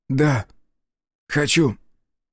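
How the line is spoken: Hoarse. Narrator (Russian): звучало хрипло

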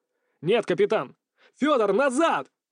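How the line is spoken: Shouting out. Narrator (Russian): выкрикнул я

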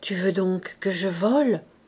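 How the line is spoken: Low, muffled murmur. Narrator (French): murmura-t-elle d'une voix sourde

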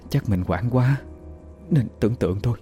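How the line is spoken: Soft self-reassurance. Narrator (Vietnamese): Chị tự trấn an

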